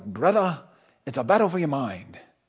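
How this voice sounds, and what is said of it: Weak put-on Scottish accent. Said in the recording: “he's from Scotland. Now, I don't have a good Braveheart accent. But if you could imagine that kind of accent.”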